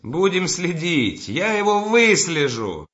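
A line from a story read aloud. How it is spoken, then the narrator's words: Energetic shout. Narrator (Russian): энергически крикнул Разумихин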